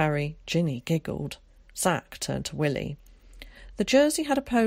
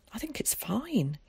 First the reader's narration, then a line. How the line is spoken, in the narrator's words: said quietly